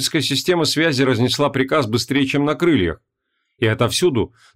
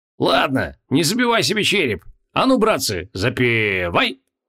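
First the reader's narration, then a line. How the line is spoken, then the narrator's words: Barked shout. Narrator (Russian): гаркнул Хабокин в свой центр командования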